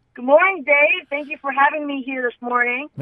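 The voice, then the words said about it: Excited, upbeat voice. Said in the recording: “you sound excited. You sound excited”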